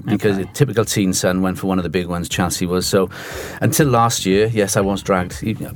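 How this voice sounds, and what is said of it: Welsh Cardiff accent. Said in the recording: “I'm sure they can pick the accent up. I'm from Cardiff.”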